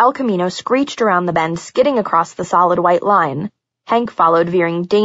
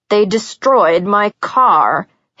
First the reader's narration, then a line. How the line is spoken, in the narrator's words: Hank snarled